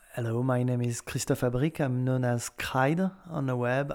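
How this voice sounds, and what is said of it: French accent. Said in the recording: “With my French accent.”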